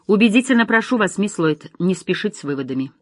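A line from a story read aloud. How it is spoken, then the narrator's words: Sharp rebuke. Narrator (Russian): резко осадил ее агент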